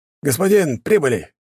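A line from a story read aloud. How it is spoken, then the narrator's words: Shouting. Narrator (Russian): крикнул водитель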